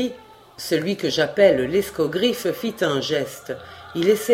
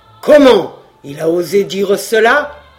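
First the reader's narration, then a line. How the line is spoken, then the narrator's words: Angry exclamation. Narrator (French): s'écria le monarque en tournant sur l'introducteur des yeux courroucés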